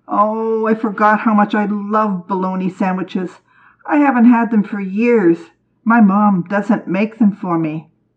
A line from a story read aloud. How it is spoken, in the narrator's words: Carl groaned